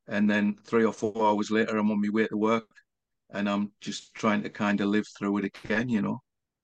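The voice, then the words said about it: Northeast English accent. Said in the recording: “Northeast accent”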